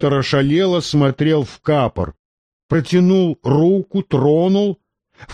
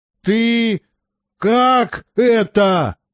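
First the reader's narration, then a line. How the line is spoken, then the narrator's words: Hoarse wheeze. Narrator (Russian): просипел доктор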